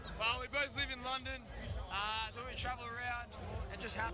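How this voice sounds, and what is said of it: Australian accent. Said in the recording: “we can tell by your accents... Melbourne, Australia”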